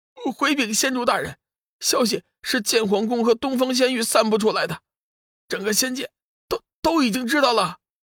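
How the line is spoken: Fearful, trembling. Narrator (Chinese): 被叫做洞玄的值日仙官战战兢兢的说道

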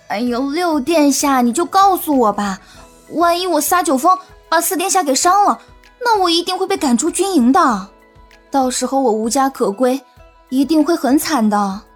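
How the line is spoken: Pitiful pleading. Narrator (Chinese): 云溪可怜巴巴的看着他，说道

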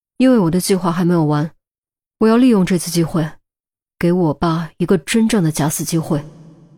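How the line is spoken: Deep low voice. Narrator (Chinese): 钟离沉声道

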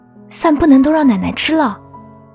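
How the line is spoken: Urgent, hurried voice. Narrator (Chinese): 一个急促的声音说道

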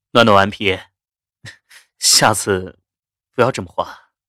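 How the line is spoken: Awkward laughing. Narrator (Chinese): 夏医生讪讪笑着道

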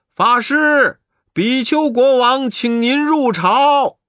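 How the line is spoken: Sudden call. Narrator (Chinese): 忽听有人叫道

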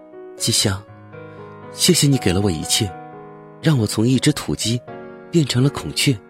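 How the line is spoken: Tender. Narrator (Chinese): 我对他温柔的说

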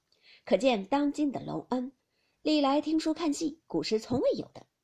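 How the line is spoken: Laughing. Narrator (Chinese): 凤姐笑道

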